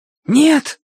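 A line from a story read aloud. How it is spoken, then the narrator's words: Hoarse shout. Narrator (Russian): хрипло выкрикнул Тенька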